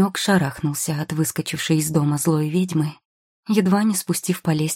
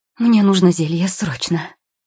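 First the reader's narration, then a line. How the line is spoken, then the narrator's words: Breathless exhale. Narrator (Russian): выдохнула она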